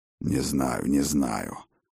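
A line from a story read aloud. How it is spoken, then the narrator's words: Grumbling. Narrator (Russian): проворчал отец дружин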